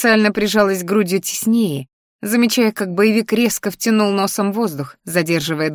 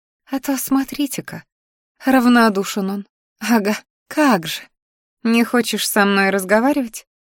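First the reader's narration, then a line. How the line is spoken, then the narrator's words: Purred. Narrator (Russian): мурлыкнула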